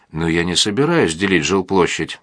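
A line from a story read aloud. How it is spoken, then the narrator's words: Plain. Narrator (Russian): сказала Дарья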